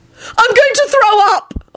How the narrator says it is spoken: Elizabeth wailed

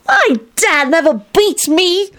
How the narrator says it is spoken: Tony replied indignantly

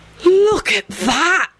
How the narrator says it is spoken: Benji breathed in an awestruck voice

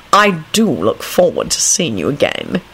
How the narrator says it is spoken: he added gravely

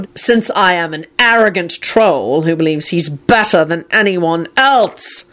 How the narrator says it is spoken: Shacklebolt bellowed

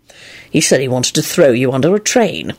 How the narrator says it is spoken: Lupin muttered

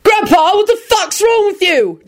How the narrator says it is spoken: Jamie yelled

